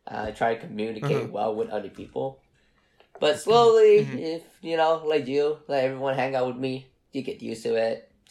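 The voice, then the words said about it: Speaks with a noticeable accent. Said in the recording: “my accent is probably one of the barriers that I have”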